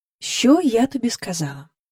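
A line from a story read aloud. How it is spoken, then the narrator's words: Eerily calm question. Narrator (Ukrainian): спитала вона Джейн таким спокійним голосом, аж страшно стало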